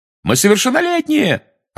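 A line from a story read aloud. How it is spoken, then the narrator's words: Two voices yelling together. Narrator (Russian): разом завопили Фред и Джордж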